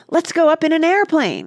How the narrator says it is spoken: cried Oliver excitedly

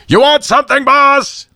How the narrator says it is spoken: He put the mic to his lips and boomed

